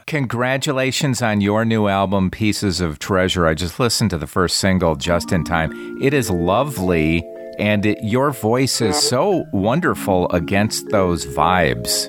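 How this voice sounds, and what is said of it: Midwestern American accent, flat A's. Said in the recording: “You got an accent, maybe Chicago area? ... You know, those A's. You can't ever get rid of it.”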